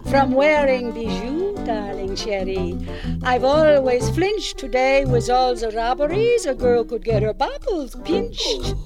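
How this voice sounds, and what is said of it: Put-on French accent. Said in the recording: “Oh, look, I'm not really French. It's just the accent that fooled you.”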